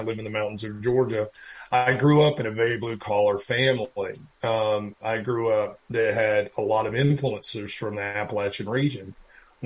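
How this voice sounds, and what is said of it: Regional North Carolina accent. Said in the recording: “I have a fairly regional accent to North Carolina”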